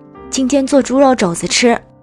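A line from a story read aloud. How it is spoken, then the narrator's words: Deliberately loud shout. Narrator (Chinese): 他故意高声嚷着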